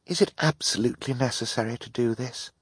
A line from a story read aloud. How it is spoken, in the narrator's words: Violet murmured to Klaus